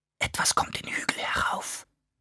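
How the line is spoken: Mother wolf whispering. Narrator (German): flüsterte Mutter Wolf

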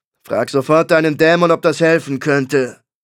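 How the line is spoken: Growled. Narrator (German): knurrte

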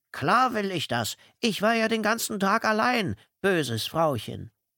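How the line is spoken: Disguised voice. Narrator (German): antwortete sie mit verstellter Stimme

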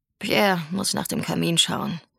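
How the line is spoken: Murmuring. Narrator (German): murmelte Grand-Mère

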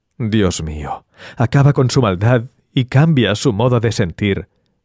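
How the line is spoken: Sighing. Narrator (Spanish): suspiraba

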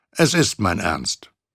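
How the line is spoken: Plain. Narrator (German): sagte Scrooge

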